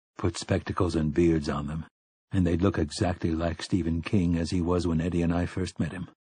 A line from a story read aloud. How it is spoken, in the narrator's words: Roland said in a low voice